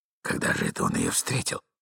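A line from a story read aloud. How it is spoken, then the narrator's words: Agitated muttering. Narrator (Russian): бормотал молодой человек, очевидно, в крайнем волнении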